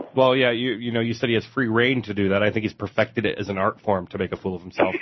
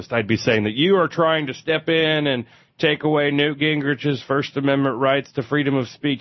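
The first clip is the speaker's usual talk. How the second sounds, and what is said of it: Put-on right-wing radio host voice, Neal Boortz. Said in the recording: “if I was a right wing radio host ... I'm not sure where that accent came from. I just presume that they all sound like Neil Bortz.”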